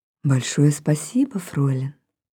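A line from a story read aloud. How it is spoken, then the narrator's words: Soft, friendly, smiling. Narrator (Russian): ласково улыбнулся мне и негромко сказал дружеским тоном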